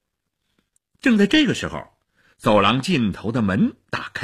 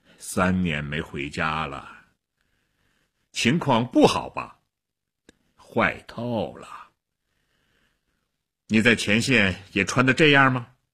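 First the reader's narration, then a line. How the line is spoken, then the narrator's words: Sighing. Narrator (Chinese): 薛特林叹了口气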